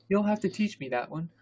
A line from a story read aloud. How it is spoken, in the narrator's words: Hermione panted